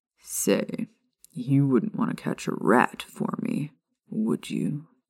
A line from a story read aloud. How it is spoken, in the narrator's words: The Neasel purred in reply